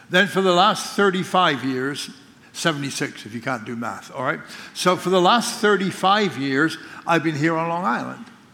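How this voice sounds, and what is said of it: English accent with Scottish influence. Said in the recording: “where's your accent from? ... I spent the first 26 years of my life born, grew up in England. And then I pastored for 15 years in Scotland.”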